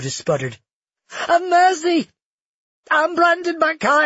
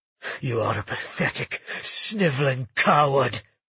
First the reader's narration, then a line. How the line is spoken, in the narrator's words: Magnus spat